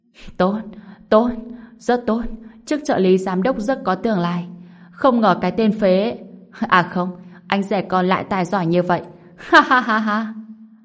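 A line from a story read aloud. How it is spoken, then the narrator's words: Laughing loudly. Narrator (Vietnamese): Lưu Thải Liên cười to nói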